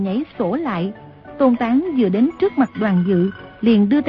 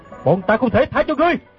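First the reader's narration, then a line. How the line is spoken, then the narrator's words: Loud angry shout. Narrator (Vietnamese): Gã bèn lớn tiếng quát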